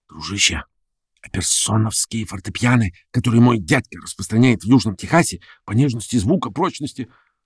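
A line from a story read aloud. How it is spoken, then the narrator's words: Whisper. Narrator (Russian): вагоновожатый шепнул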